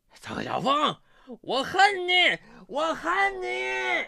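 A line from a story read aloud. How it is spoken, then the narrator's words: Drunk, wailing shout. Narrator (Chinese): 酩酊大醉之际，他嚎啕大哭的叫喊着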